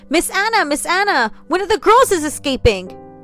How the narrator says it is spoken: the servant girl cried out

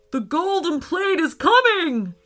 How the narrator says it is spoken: shouted Nigel

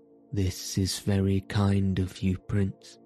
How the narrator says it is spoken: said the princess at last, quite coolly

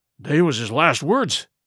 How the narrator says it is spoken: moaned Morgan

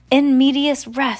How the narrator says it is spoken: Sunny cried

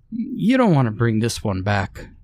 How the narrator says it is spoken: warned Thade with a grim chuckle

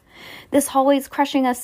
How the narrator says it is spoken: Sam cried

